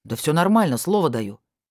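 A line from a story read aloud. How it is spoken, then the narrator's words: Irritated. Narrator (Russian): раздраженно добавил Валера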